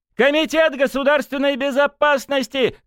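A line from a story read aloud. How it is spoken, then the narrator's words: Shouting. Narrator (Russian): кричал Матвей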